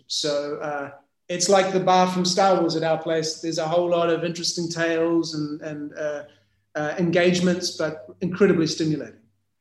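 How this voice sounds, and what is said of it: New Zealand accent. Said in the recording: “where is that uh, accent from? Is that Australia, South Africa? ... it's New Zealand. ... very much a Kiwi.”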